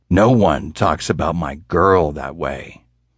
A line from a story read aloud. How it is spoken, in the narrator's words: the big man growled